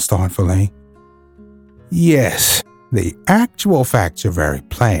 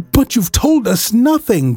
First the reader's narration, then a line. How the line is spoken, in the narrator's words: cried the doctor